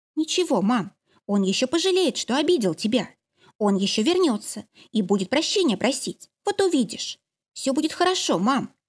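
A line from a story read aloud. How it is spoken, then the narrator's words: Soft whisper in ear. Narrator (Russian): тихо шептала ей на ухо Олька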